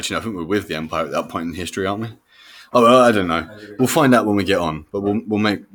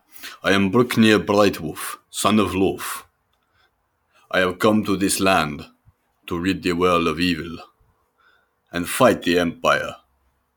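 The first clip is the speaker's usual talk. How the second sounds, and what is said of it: Nord warrior character voice. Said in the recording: “I will pick, uh, and that will be a Nord because I can do this voice.”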